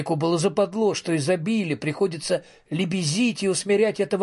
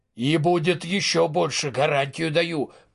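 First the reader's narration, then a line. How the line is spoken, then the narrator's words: Grumbled. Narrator (Russian): проворчал вышибало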